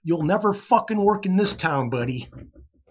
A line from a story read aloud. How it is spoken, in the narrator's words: As loud as he could, he screamed